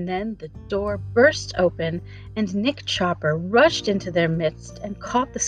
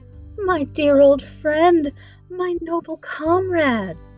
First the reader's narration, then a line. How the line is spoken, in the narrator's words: cried the Tin Woodman joyfully